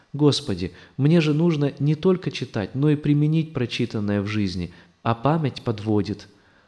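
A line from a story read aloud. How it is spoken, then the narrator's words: Pleading prayer. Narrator (Russian): я взмолился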